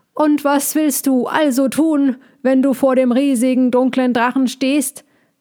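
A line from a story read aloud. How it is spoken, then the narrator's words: Calling out. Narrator (German): rief der Igel ihm von auf seinem Kopf her zu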